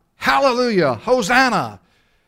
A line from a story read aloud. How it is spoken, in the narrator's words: Some enthusiasts would shout